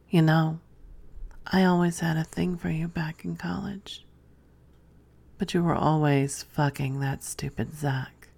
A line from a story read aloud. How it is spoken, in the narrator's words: Then he huskily whispered in my ear